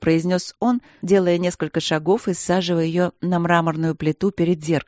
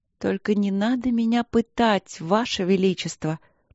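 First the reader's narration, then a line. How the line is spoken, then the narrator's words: Languid exaggerated whisper. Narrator (Russian): прошептала Полина нарочито томно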